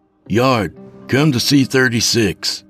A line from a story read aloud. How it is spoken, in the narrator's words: he called out over the radio